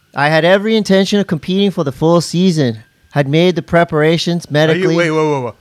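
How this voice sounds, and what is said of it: Imitates another person's accented voice. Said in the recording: “Are you doing this in the respective accent? ... Yes, so the person, not the nationality. ... I'm doing an impression.”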